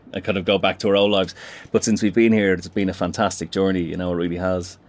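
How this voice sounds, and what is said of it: Dublin Irish accent, slight London tinge. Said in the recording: “I was discerning a Dublin accent there ... probably a little pepper of that in there as well”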